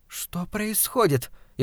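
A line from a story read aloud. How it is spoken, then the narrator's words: Frightened question. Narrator (Russian): испуганно спросила Кристина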